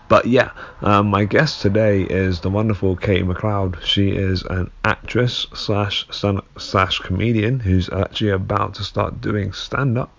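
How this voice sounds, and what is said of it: Sick-sounding voice. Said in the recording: “Sick at the moment, that's why my voice is a bit like this.”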